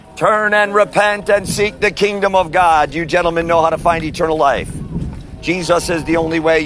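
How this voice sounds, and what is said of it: Loud yelling street preaching. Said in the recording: “you're being a little loud and that you're yelling”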